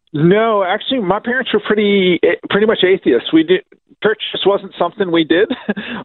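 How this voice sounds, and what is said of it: American accent. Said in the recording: “I'm detecting a bit of an accent there ... picked up the American accent.”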